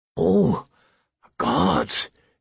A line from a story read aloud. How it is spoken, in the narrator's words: he moaned